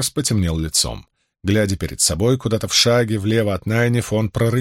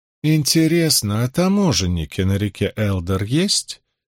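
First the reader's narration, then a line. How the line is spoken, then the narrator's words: Lazy inquiring tone. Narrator (Russian): Ленивым тоном осведомилась Илэйн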